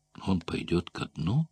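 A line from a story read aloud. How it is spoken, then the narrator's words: Young woman asking. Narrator (Russian): спросила девушка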